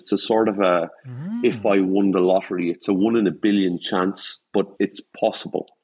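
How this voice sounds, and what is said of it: Irish accent. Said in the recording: “I've got a different accent. I'm Irish”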